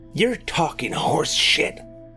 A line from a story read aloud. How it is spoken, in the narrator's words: hissed Roy